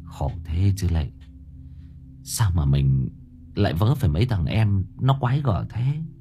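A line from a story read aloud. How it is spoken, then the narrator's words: Weary sigh. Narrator (Vietnamese): Cô Thơm thở dài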